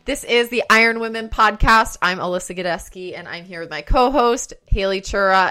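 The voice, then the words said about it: Bursting with excitement. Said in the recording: “People can probably hear it in my voice that I have a lot of, I'm like bursting”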